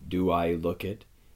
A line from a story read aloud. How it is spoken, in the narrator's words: he said